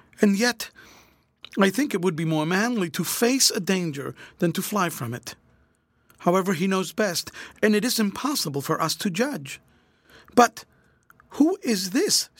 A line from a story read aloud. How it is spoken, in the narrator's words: exclaimed anxiously